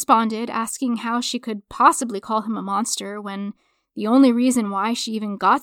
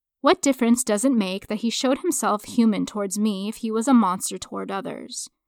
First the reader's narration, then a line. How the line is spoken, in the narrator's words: she asked